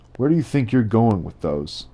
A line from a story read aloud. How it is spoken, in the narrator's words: Sheriff Gabe hollers after his son